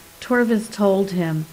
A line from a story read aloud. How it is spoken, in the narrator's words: Leif said sadly